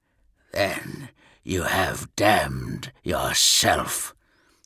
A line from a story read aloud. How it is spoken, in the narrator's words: hissed Ferus